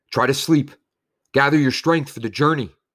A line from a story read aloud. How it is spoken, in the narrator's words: Someone called out